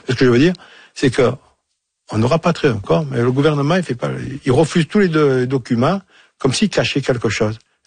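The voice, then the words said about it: Marseille French accent. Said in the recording (French): “avec mon accent, je suis à de Marseille”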